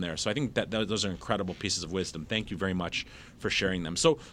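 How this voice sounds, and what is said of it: Midwest Michigan accent. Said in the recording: “is that a Michigan accent ... It's definitely a Midwest Michigan accent.”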